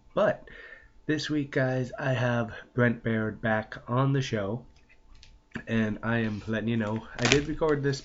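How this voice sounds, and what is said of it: Stuffed-up, congested voice. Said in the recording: “I got a cold. If you notice, I'm sounding a little stuffed up ... my voice went to crap”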